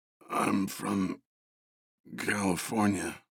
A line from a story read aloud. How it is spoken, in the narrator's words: Russ groaned